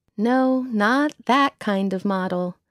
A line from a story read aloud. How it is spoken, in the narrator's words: saying wearily